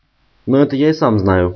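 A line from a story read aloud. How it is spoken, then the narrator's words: Calmer reply. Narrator (Russian): уже более спокойно ответил Джереми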